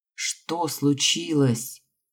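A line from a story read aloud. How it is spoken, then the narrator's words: Tired. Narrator (Russian): Устало обратилась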